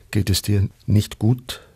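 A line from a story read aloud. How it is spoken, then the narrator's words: Plain question. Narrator (German): fragte sie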